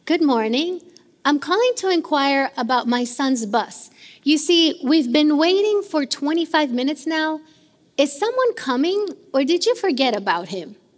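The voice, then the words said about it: Exaggeratedly calm, polite voice. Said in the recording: “in a very calm voice.”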